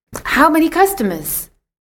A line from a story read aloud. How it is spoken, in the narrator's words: asked eagerly